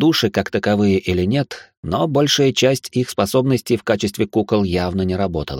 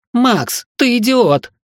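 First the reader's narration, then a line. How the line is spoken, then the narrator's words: Muffled coughing shout. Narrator (Russian): прокричала Лора, закашлявшись и прикрыв рот футболкой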